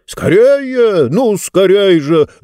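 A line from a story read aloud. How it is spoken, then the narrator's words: Urgent shout. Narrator (Russian): закричал Мортур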